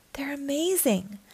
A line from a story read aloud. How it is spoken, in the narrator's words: Max whispered